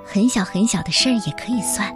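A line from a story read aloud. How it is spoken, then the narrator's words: Gentle woman. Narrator (Chinese): 艾伯特小姐温柔地说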